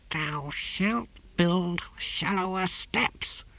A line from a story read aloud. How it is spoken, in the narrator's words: he hissed, hauling himself up